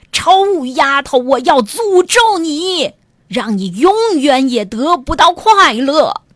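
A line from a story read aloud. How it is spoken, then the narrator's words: Loud shout. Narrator (Chinese): 公爵大声喊道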